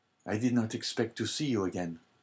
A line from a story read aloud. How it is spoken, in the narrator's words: said he feebly to Dante